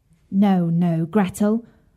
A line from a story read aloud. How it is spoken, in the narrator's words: said Hansel